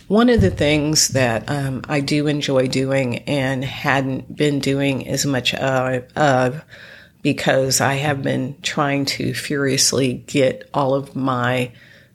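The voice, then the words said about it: Congested, nasal voice. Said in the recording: “I'm still somewhat congested ... the nasal congestion, sinusitis ... I sound congested”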